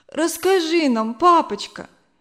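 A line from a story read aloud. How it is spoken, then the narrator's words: Sobbing plea, girl. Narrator (Russian): попросила Зина, все еще всхлипывая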